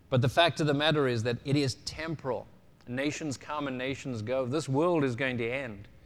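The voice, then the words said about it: South African accent. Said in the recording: “I was still born in South Africa. I still speak with a different accent.”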